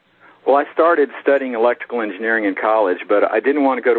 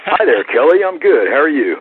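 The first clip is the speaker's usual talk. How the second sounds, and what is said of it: Announcer-style radio voice. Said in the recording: “let me get on my radio voice.”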